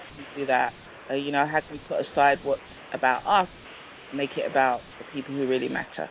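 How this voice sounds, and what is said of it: English accent. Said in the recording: “that English accent that does it”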